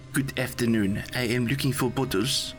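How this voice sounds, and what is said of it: Put-on German accent. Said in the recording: “said in a German accent”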